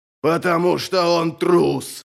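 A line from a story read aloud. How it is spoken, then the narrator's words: Growled. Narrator (Russian): прорычал Хуннен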